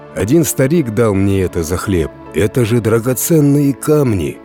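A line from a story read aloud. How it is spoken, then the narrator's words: Peasant exclaiming. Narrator (Russian): воскликнул крестьянин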